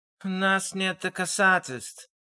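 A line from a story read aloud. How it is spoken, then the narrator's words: Weary reminder. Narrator (Russian): устало напомнил Миллер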